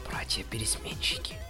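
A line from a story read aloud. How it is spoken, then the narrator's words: Whisper. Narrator (Russian): прошептала синяя пони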